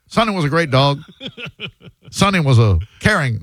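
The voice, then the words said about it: Imitates a comedian's voice. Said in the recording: “Are you doing a Ron White? ... my patented tater salad impression ... That's what it sounded like.”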